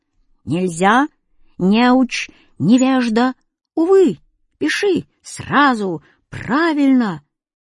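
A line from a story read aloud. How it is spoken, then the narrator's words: Constant shouting. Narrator (Russian): он ничего не говорил спокойно, а только все выкрикивал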